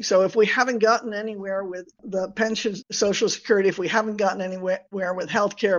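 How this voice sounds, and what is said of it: American accent. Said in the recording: “I may sound terribly American here with my accent”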